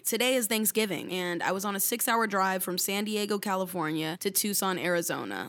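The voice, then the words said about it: Hoarse, strained voice. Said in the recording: “excuse my voice. I lost it the other day screaming in the car”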